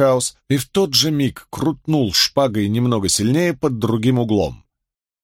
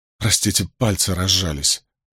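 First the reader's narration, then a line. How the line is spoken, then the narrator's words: Muttered. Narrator (Russian): пробормотал Мэтью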